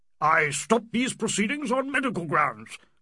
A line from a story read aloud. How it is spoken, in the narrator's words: cried the major on a word from Turton